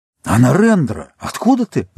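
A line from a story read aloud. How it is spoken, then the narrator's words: Joyful cry of recognition. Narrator (Russian): радостно вскричал Даяром, узнавая друга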